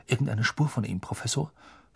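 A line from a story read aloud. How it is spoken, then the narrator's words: Whisper. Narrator (German): flüsterte Percy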